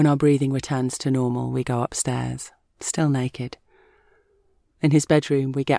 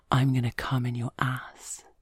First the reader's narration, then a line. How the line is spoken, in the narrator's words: he whispers in my ear